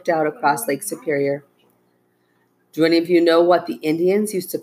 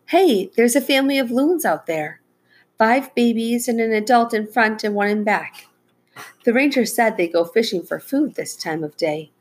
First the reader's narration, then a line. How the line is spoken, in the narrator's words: Hearing a mournful call, Becca exclaimed